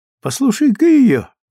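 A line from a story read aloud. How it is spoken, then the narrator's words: Cheerful. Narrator (Russian): весело сказала Стефани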